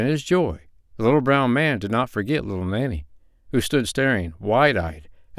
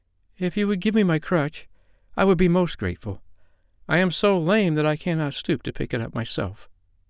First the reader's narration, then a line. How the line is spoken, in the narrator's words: answered little Nanny timidly